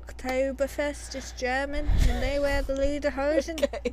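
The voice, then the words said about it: Put-on British accent. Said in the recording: “Why am I talking like a Briton?”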